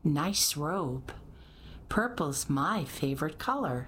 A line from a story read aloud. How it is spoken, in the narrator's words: said Mimi